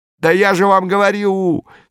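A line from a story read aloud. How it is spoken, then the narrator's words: Screaming again. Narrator (Russian): снова завопила Аэлита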